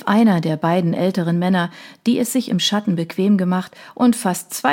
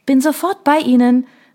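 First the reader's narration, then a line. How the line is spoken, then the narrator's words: Beaming, called back. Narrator (German): rief Isabelle mit strahlendem Lächeln zurück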